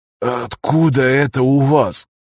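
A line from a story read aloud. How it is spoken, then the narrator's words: Strained, forced out. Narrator (Russian): с трудом выдавил Трой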